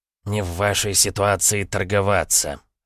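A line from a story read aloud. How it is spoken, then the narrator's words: Snorted. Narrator (Russian): фыркнул шаман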